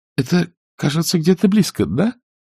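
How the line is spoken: Trembling, restrained excitement. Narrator (Russian): сдерживая волнение, она только произносила дрогнувшим голосом

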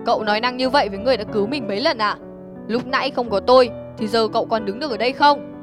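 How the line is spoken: Harsh. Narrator (Vietnamese): Phong gay gắt

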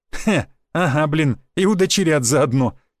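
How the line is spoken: Guffawing. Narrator (Russian): хохотнул Федор

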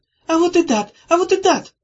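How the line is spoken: Shouted. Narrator (Russian): крикнула Зозо

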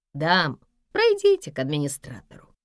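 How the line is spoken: Calm guard's offer. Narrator (Russian): спокойно предложил охранник

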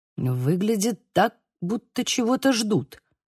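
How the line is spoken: Muttered. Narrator (Russian): пробормотал Лука

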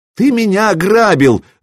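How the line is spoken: Shouting. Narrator (Russian): закричал купец

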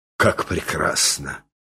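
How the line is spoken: Watchman's admiring sigh. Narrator (Russian): вздохнул сторож

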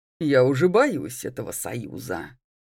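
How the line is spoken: Snort. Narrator (Russian): хмыкнула Лоретта

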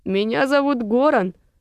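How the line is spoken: Accented male voice. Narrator (Russian): мужчина говорил с акцентом

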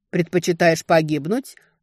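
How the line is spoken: Wincing man's snort. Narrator (Russian): морщись хмыкнул мужчина

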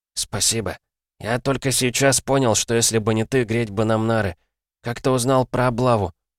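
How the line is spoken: Furtive whisper. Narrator (Russian): Мика прошептал, воровато оглядываясь

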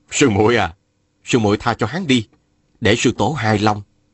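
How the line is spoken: Smiling. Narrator (Vietnamese): Mai Kiếm Hòa mỉm cười bảo

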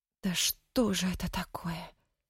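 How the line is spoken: Whispered. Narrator (Russian): прошептала Танька

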